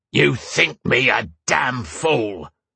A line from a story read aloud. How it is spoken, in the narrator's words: the dark-skinned man bellowed